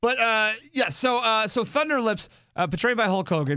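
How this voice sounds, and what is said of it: Usual voice. Nothing is said of it.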